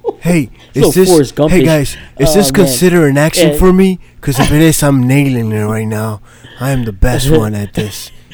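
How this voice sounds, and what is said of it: Imitated voice putting on an accent. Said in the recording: “Keanu Reeves doing an accent ... An accent on an accent”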